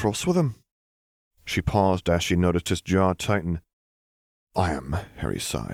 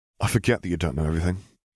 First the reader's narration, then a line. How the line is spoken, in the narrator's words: he muttered